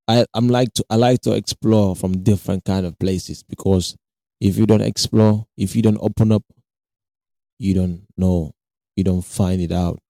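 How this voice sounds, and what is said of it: African-accented English. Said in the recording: “my accent might be, you know, trash right now ... it's not a, you know, real English guy. I'm an African ... The African accent is running.”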